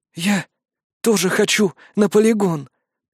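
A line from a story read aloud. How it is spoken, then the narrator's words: Exhausted rasp. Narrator (Russian): прохрипела Фарди, из последних сил удерживая себя в горизонтальном положении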